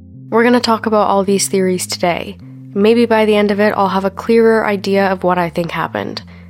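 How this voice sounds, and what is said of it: Sick-sounding voice. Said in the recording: “even though I'm sick, and even though I'm sure you can probably tell by my voice”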